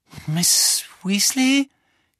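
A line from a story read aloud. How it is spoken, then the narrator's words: Croak. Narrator (German): krächzte Harry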